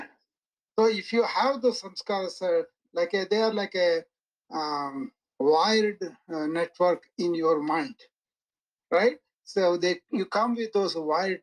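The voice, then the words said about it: Heavy accent. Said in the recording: “you know your accent heavy, man”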